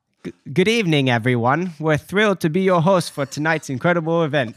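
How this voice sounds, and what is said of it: Attempted Australian accent, Bindi Irwin. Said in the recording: “said Bindi Irwin. I'm trying the Australian accent. I don't know if it works. ... it sounds like Indian or something.”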